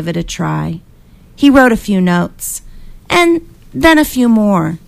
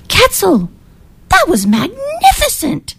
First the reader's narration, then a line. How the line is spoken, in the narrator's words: he cried